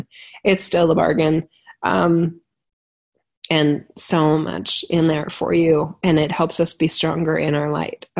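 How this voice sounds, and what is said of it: Strained, fading voice. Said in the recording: “You can tell I'm losing my voice.”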